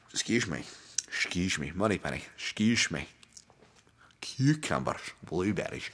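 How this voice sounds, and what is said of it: Exaggerated put-on accent. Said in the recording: “easy on the accents”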